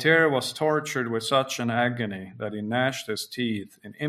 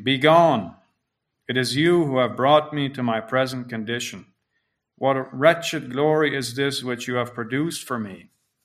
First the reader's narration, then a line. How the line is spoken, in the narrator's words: He loudly exclaimed